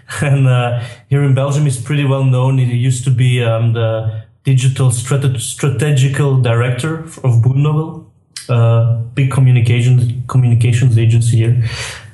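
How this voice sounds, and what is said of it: Belgian accent. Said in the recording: “I'm from Belgium, as you might hear from my accent.”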